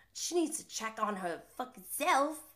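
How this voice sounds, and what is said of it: Poor imitation of another's accent. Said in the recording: “That wasn't a good accent.”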